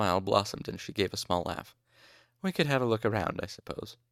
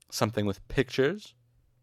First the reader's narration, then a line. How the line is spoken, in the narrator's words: Ambrose spat